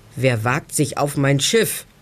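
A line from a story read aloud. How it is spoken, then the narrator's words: Deep roaring voice. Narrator (German): brüllt eine tiefe Stimme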